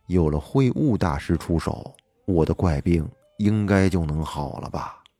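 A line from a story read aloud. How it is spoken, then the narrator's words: Inner murmur. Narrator (Chinese): 心里喃喃道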